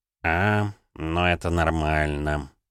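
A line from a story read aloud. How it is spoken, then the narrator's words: Sighing. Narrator (Russian): вздохнул Савелий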